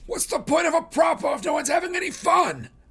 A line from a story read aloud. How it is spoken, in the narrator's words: Plutarch yells